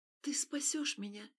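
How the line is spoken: Barely audible question. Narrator (Russian): Едва слышно спросила она, почему-то не желая, чтобы он услышал их

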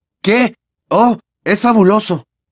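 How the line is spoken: Forced cheerful exclamation. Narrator (Spanish): exclamó, intentando sonreír con naturalidad, mientras el corazón seguía latiéndole a toda velocidad y la mano le dolía y le sangraba

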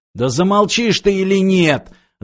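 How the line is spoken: Furious yell. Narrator (Russian): заорал разведчик, заводясь не на шутку

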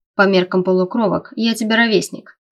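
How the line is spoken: Snort. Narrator (Russian): фыркнул я

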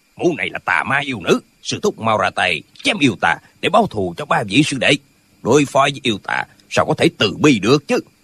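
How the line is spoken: Angry. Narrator (Vietnamese): Tân Quốc Lương tức giận nói

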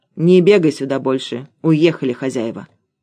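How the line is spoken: Guard, said grimly. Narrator (Russian): охранника, который мрачно сказал

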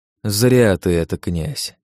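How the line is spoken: Sigh. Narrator (Russian): вздохнул я

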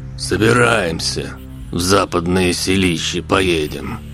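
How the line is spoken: Gruff. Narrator (Russian): грубо сказал Василий

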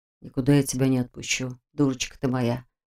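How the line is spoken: Groom's tender whisper. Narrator (Russian): ласково шептал жених

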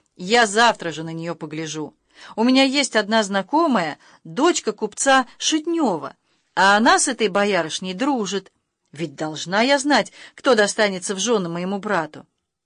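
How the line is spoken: Lively exclamation. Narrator (Russian): Варя с живостью воскликнула

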